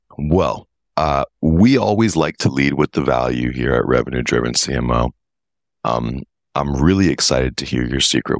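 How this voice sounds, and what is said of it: Rough voice from a cold. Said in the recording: “I'm just getting over a cold, so my voice is a bit rough today.”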